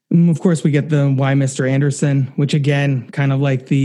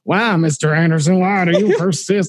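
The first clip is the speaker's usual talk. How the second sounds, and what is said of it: Imitated Southern-accented villain voice. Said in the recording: “he gets like a Southern accent there”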